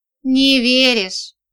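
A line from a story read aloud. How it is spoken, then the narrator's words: Hurt sigh. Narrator (Russian): Он опять вздохнул, точно обиделся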